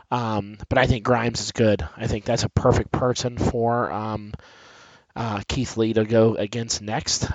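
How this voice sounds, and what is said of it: Scratchy voice from a cold. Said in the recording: “I have a little bit of a cold, so my voice is kind of scratchy.”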